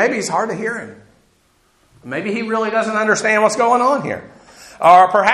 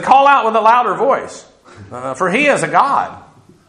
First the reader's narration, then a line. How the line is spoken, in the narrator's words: Elijah mocked them and said